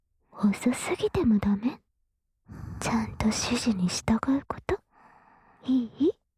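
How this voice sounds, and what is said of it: Whispering close to the ear. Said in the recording (Japanese): “耳元でささやきますから”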